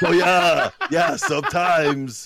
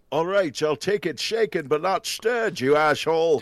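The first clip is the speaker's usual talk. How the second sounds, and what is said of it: Sean Connery impression. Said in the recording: “I do impressions. You want to hear my Sean Connery?”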